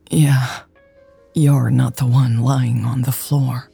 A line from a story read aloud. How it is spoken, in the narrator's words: Lex groaned